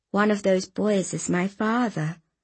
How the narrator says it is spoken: I said quietly

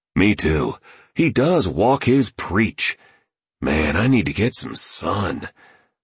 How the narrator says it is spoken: the painter murmured

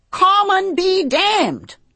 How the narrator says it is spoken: I yelled

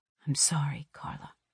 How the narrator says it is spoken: he whispers

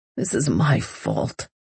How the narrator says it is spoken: he mumbles

